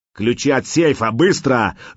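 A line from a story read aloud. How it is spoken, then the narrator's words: Terrifying roar. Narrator (Russian): жутко взревел человек с рацией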